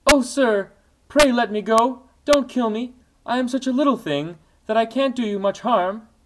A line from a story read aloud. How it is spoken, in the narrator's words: The flea, terrified, whimpered in a weak little voice